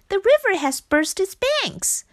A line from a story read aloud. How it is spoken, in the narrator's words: shouted Frog